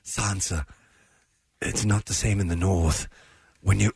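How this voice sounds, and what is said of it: Low-voiced Littlefinger impression. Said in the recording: “You do a good Littlefinger impression. ... He gets so low in his speech.”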